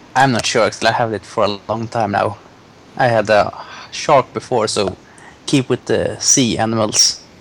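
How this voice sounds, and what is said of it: Pleasant noticeable accent. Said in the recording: “massaging Dax's ears with your accent”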